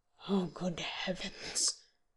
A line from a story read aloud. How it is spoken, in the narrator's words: in a very low whisper, but still audible